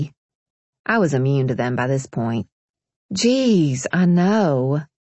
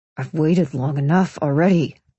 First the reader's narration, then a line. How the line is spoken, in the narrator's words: Pierce growled